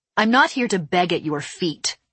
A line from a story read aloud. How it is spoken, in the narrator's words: I snapped